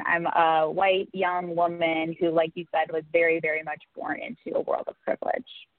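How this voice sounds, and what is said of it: Standard Midwestern American accent. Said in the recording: “I have the pretty standard Midwestern accent ... it's very, very, like you said, Midwestern”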